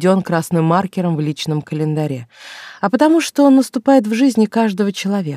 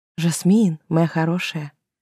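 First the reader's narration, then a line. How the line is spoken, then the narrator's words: Whisper. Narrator (Russian): прошептала я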